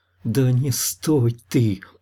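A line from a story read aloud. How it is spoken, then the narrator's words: Hissed into ear. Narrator (Russian): прошипела Лана в ухо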